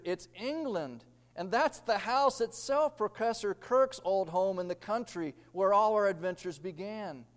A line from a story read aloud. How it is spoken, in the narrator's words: exclaimed Peter